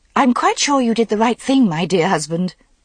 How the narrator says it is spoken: she said hastily

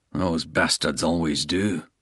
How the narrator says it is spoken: Bald muttered

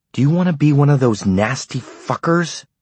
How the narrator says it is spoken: she had screamed at him

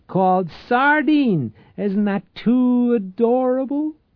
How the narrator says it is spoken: Maria cried

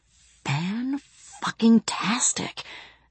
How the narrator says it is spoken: whispered BB

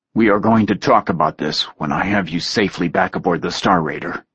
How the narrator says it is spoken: he said gruffly

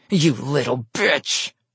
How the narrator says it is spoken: roared

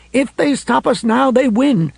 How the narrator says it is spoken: 2,000 angry, grief-stricken women marching around the municipal building and yelling

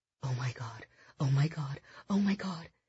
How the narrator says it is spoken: she whispered to herself

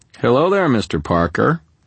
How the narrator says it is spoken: I called cheerfully

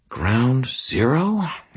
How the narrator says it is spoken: Anastasia muttered out of the corner of her mouth

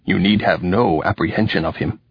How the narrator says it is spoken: Ulysses said, a little sharply

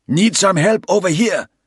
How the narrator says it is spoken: Spraytan called out

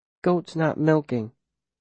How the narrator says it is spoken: he says quietly

